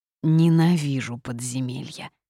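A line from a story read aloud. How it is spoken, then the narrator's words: Creature grumbling. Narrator (Russian): пробурчал лихо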